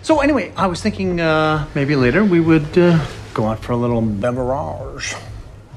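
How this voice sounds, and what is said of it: Put-on accent. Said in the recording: “What's that accent? ... Accent happened again. ... It keeps coming up.”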